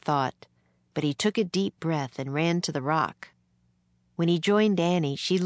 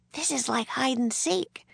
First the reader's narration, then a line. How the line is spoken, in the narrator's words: she whispered